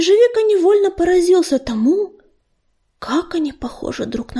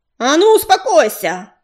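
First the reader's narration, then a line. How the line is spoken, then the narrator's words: Barked. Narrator (Russian): рявкнула дочь Огнезвезд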